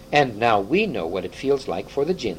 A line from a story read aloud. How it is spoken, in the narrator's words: said Edmund with a chuckle